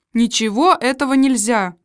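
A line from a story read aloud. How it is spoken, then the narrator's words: Irritated official's tone. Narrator (Russian): сказал старший советник суда раздраженным тоном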